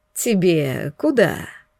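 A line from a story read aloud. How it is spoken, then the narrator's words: Purr. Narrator (Russian): мурлыкнул он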